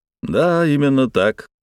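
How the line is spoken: Tired, smiling. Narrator (Russian): устало улыбнулся я

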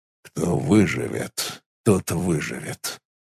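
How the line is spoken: Mumbling. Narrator (Russian): пробормотал

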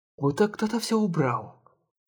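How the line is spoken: Whisper. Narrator (Russian): прошептала на плечах Шанте

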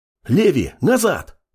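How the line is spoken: Young man barking. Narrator (Russian): успел рявкнуть парень

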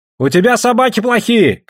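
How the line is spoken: Shouting. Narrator (Russian): крикнул ему Айдамба

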